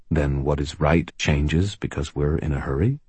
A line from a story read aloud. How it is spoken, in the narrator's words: He asked gently